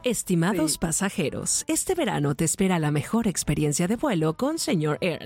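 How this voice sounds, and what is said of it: Airline announcer voice. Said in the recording (Spanish): “yo quisiera hacer voz como de aerolínea ... ¡Sí me sale! ... Sí te sale! Te no, sale de verdad.”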